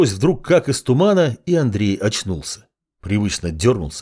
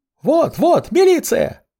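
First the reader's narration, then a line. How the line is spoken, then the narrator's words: Joyful yelling woman. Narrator (Russian): радостно завопила какая-то тетка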